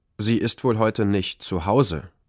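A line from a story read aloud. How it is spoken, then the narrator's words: Plain fatherly voice. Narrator (German): sagte Papa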